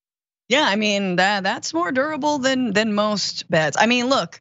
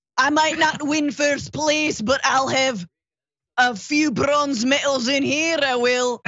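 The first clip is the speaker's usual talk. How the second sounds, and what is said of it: Put-on accent. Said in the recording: “How do you have that accent? That's amazing.”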